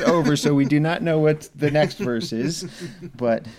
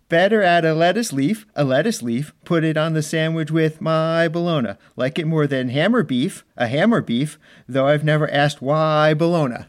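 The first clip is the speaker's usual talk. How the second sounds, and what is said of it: Poor amateur singing. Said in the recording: “in my poor singing voice”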